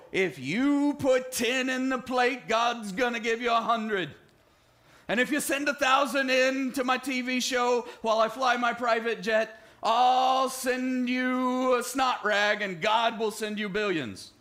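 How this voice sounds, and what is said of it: Mock TV preacher voice. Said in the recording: “TV preachers that kind of sound like that ... that was a horrible imitation.”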